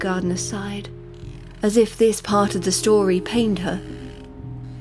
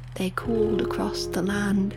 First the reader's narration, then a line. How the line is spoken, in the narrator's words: the gardener whispered